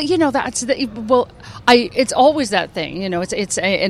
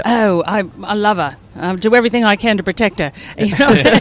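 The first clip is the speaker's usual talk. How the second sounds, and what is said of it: Put-on Australian accent. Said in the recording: “Have you attempted an Australian accent yet? ... we know from the Crocodile Hunter”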